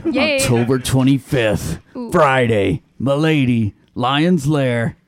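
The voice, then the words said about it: Announcer-style radio voice. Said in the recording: “Love that voice. ... That's a great radio voice. ... It's my radio voice.”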